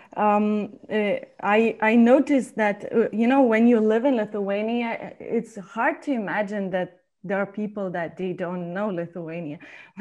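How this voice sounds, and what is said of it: Lithuanian-accented English. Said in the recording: “they hear my accent and they ask always, where are you from? ... I'm from Lithuania”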